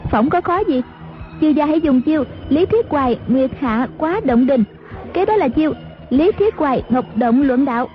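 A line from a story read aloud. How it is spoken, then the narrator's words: Smiling. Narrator (Vietnamese): Ngữ Yên mỉm cười nói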